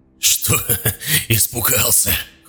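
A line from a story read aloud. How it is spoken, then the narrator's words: Laughing. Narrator (Russian): хохотал человек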